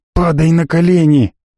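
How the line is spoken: Hissing crowd. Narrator (Russian): зашипели на него из толпы

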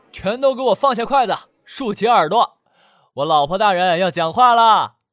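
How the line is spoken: Fawning shout. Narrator (Chinese): 周扬笑出一副奴才相，冲所有人喊

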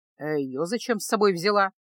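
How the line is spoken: Gruff grumble. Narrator (Russian): грубовато проворчал синишаль

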